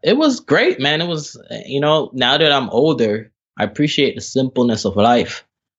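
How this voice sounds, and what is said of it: Jamaican accent. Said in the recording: “I pick up on the Jamaican accent.”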